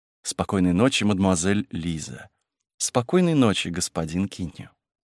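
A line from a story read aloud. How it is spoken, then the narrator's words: Even voice. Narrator (Russian): говорили ровным голосом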